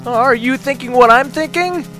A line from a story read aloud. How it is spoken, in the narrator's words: Joe called out